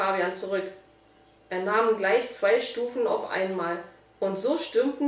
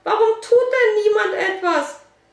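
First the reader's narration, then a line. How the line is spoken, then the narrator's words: Saleswoman still screaming. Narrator (German): schrie die Verkäuferin weiter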